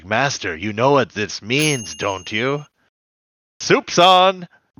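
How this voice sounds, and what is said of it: Igor-style servant character voice. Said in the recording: “he's impersonating, what is it, like, Frankenstein's assistant? ... Igor, yeah.”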